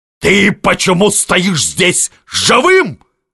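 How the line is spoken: Yelling. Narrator (Russian): орал на него Миних

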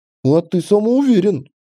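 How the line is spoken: Chuckling again. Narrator (Russian): снова хохотнул Док

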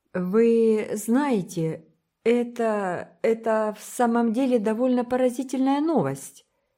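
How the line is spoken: Hesitant, uncertain start. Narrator (Russian): неуверенно начал Гилберт, пытаясь собраться с мыслями

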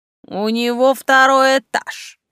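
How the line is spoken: Snide remark. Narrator (Russian): ехидно прокомментировал барон

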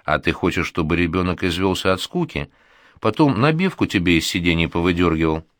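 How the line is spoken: Calm retort. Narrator (Russian): спокойно парирует Парване

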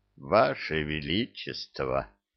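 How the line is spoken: Old man, barely forced out, awestruck. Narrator (Russian): Едва смог выдавить старик завороженно

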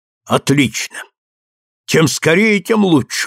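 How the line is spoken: Runner's exclamation. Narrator (Russian): воскликнул быстрый бегун

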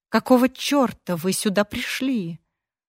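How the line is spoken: Hissed. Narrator (Russian): прошипела

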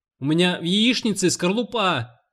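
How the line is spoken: Shouted from below. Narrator (Russian): закричал внизу Волт

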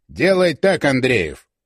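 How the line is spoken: Plain. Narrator (Russian): сказал наконец

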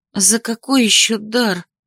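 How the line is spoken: Very plaintive. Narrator (Russian): Получилось совсем уж жалобно

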